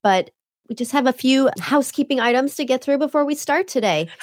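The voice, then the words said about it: Voice sounds unwell. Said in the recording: “excuse my voice today. I'm still recovering”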